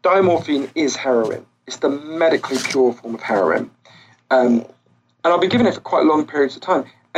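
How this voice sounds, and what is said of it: British accent. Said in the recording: “In Britain, where, as you can tell from my voice, I'm from”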